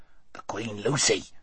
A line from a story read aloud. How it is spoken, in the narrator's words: whispered Duffel